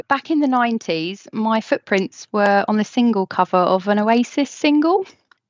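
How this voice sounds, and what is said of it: Lovely accent. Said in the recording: “the most lovely accent”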